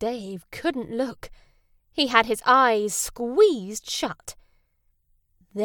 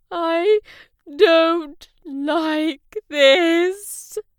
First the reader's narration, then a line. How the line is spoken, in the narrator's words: Dave cried